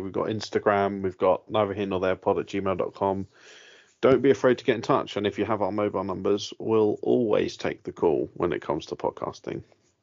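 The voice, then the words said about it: English accent. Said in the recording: “I didn't realize you had an English accent”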